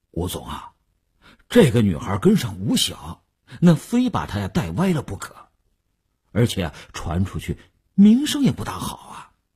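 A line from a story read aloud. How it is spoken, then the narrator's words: Hesitant, reluctant. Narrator (Chinese): 李大公欲言又止 李大公才说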